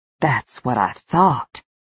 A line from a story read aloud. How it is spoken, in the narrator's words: Sylvia muttered darkly